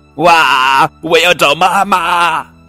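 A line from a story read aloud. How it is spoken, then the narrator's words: Child's loud cry. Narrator (Chinese): 布朗宝贝大声叫道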